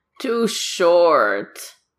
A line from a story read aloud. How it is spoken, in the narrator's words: Hunter grumbles into his coffee cup